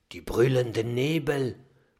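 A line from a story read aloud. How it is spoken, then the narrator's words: Low murmur. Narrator (German): raunt Oskar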